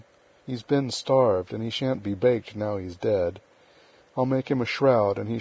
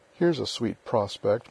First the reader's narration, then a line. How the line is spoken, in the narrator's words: muttered Joe